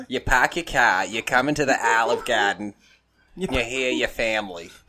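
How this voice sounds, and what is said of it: Put-on Boston accent. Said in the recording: “You have to say it with a Boston accent, or else if you say it too Italian”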